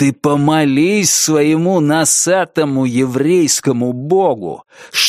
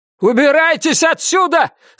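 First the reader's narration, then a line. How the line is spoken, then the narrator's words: Shouting. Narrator (Russian): закричал Словик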